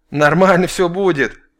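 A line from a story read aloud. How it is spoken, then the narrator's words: Short giggle. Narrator (Russian): коротко хихикнул раз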